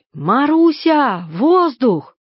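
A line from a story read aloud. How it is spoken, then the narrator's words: Distant women shouting. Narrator (Russian): сандружинницы слышно было, как они кричали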